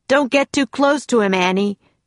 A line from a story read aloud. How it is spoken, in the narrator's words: Jack shouted